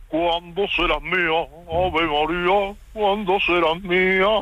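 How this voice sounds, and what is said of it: Sung in a Batman voice, vibrato. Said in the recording (Spanish): “¿Sabes poner la voz de Batman? ... Inténtalo, pero cantando ... Ese vibrato final. ... Batman cantando Bisbal”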